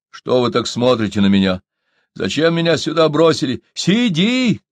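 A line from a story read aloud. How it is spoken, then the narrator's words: Shouted from above. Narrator (Russian): крикнули сверху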